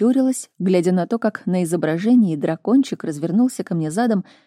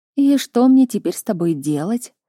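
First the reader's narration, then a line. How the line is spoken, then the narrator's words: Resigned sigh. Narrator (Russian): вздохнула я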